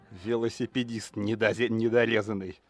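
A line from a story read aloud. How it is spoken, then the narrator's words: Angry hiss. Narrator (Russian): зло прошипел Никсон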